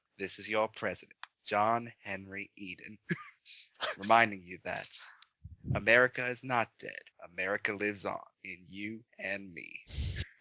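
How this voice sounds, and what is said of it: Malcolm McDowell impression as John Henry Eden. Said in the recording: “do a McDowell impression”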